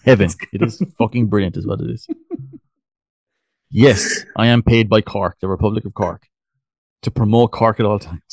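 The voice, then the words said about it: Musical Cork Irish accent. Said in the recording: “Cork accent is beautiful. It's musical. ... that's just my accent ... it's such a beautiful accent”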